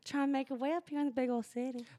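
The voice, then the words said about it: Put-on Southern accent. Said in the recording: “That's all I can do with that Southern accent.”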